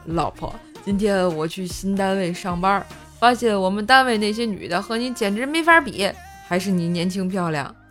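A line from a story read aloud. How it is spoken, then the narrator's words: Smiling. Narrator (Chinese): 笑着说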